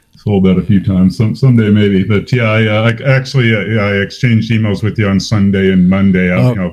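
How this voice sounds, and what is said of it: Loud, clear radio-style voice. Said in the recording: “you're loud and clear, man. You got a radio voice.”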